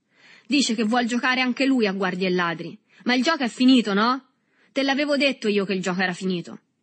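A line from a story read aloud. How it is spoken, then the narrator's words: Shouted. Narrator (Italian): Si udì a questo punto gridare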